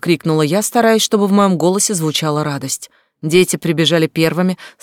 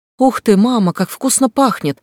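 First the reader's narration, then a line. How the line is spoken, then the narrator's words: Excited child's exclamation. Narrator (Russian): воскликнул наш сын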